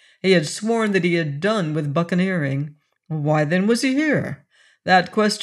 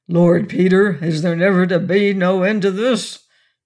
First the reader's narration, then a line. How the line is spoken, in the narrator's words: the giant had growled